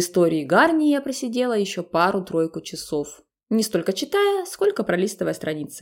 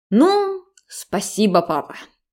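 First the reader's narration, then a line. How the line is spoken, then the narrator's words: Indignant snort. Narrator (Russian): негодующе фыркнула я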